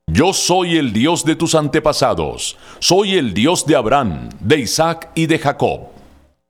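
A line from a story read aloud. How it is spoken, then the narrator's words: Loud divine voice. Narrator (Spanish): Dios, con voz fuerte, le dijo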